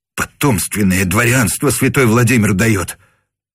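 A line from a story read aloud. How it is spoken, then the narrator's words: Muttering. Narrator (Russian): бормотал он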